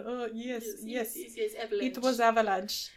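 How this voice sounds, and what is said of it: Poor attempt at Russian accent. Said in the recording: “I don't know what that accent was... It was not Russian... If someone is listening to this and you're Russian, I'm really sorry.”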